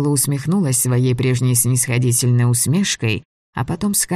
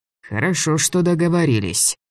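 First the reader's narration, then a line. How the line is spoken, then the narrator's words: Gloomy. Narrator (Russian): сказал Влас мрачно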